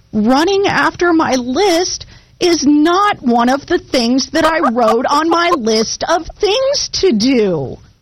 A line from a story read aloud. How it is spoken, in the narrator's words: wailed Toad